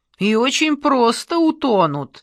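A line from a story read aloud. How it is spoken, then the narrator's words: Cheerful agreement. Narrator (Russian): радостно согласился возница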